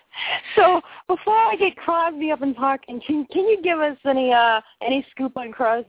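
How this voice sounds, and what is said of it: Noticeable non-native accent. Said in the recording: “I have this funky accent, so I butcher things”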